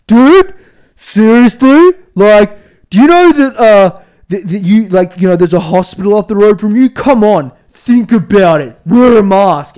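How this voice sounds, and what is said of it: Woman's voice done sounding mannish. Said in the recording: “she sounded like a man.”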